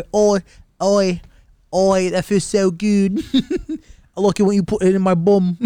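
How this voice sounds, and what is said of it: Put-on London English accent. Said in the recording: “You like London bitches? ... You don't like English women? ... I don't really need the accent to get over.”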